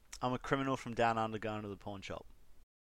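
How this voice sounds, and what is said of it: Put-on Australian accent. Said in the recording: “It's just the accent. ... because I'm a criminal from down under”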